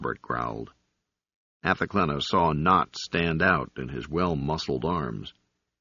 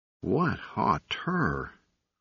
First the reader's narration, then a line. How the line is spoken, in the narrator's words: Robert sighed